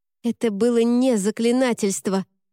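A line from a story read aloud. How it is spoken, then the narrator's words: Barking snap. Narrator (Russian): рявкнула Шарлотта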